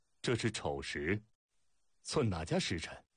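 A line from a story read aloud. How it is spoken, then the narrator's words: Laughing. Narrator (Chinese): 苏秦笑了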